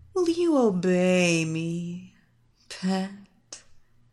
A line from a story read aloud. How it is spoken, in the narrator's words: Evelina purred